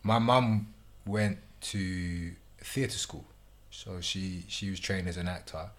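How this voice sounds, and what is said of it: British accent. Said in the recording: “I hear a British accent.”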